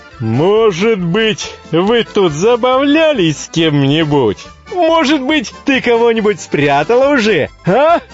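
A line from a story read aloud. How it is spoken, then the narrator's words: Triumphant self-satisfied laughter. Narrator (Russian): восхищенный таким своим замечанием, Чуб засмеялся, внутренне торжествуя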